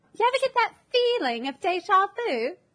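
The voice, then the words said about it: Put-on British accent. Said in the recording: “I'm doing a British accent right now.”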